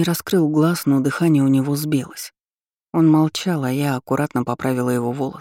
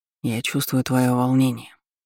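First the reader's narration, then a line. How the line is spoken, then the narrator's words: Barely audible whisper. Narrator (Russian): еле слышно шептал маг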